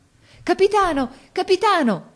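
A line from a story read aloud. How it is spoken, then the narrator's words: Shouting in unison. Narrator (Italian): gridarono tutti insieme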